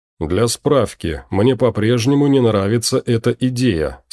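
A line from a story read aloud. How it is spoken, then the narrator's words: Plain. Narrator (Russian): сказал Эрлик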